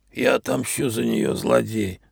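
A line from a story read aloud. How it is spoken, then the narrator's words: Whispered. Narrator (Russian): прошептал маг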